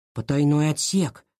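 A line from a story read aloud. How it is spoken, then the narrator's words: Whisper. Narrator (Russian): прошептал Илья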